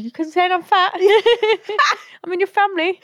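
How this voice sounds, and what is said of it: Put-on English Manchester accent. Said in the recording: “English accent? ... She's turned English overnight. ... Randomly from Manchester.”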